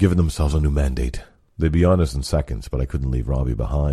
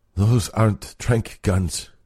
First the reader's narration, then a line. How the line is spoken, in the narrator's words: he groaned